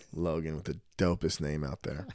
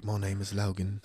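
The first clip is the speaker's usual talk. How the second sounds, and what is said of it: Put-on British accent. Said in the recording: “He's probably got like a little British accent.”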